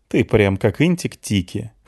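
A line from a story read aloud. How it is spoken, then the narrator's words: Snorted. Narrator (Russian): хмыкнул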